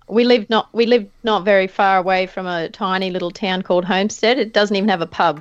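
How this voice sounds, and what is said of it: Rural Australian country accent. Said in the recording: “you probably tell from my country accent”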